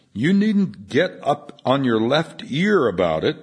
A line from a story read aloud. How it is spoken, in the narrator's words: Moorhead exclaimed